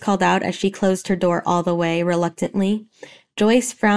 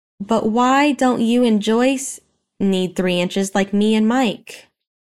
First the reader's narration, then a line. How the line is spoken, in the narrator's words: He groaned